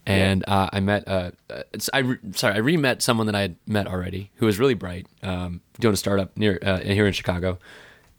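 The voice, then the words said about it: Hoarse, strained voice. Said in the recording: “that's how I lost my voice.”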